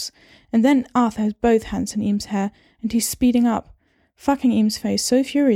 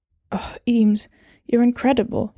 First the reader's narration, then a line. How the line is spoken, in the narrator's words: he groans